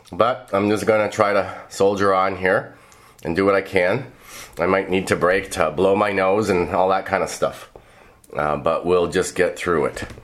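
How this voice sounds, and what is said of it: Hoarse voice. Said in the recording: “As you can tell, I caught a cold, and so my voice is a little bit hoarse,”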